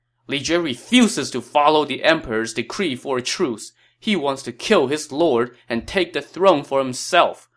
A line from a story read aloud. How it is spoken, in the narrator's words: Huang Fu Li shouted